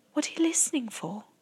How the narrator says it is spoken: Sophie whispered back

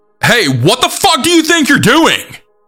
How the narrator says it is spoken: yell

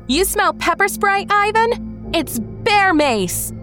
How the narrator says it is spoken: I yelled at him loudly

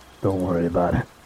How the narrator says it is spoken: Jerry said quietly

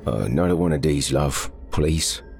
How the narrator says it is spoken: said in a slurred voice

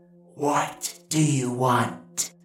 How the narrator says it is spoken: The demoness hissed from the darkness of the hollow

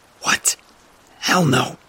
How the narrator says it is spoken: I hissed

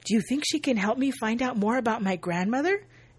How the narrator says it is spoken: Lindsay gasps

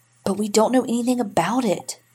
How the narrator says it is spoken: Janet whispered

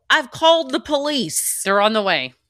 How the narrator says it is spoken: yell

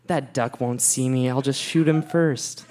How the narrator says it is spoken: mumbled to himself

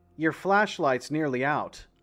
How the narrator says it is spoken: I said

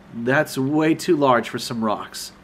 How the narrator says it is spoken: I replied with a bit of a chuckle

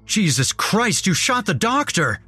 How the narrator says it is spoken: shouted

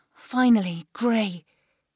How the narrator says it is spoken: exclaimed

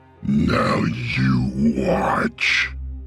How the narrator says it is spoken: Vivian said in a terrible voice

